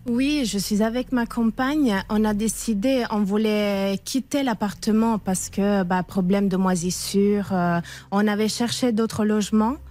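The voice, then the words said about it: Slight Italian accent in French. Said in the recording (French): “D'où vient ce petit accent ... Italie.”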